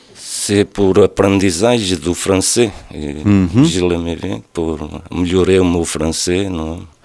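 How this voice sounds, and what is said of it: Speaks French with an accent. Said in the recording (French): “tu as un accent, mais on te comprend”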